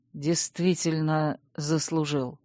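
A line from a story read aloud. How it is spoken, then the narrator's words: Quiet speech. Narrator (Russian): тихо проговорил герцог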